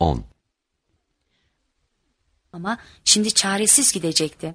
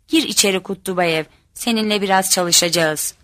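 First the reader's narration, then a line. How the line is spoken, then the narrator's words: Stern voice. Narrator (Turkish): dedi sert bir sesle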